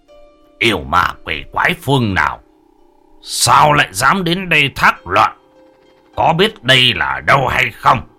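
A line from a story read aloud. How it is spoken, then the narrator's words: Harsh, steely voice. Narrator (Vietnamese): Ông gằn giọng đanh thép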